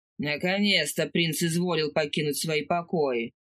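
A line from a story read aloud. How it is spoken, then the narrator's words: Strained grumbling. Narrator (Russian): проворчал Брен, сгибаясь под тяжестью бочки с солеными огурцами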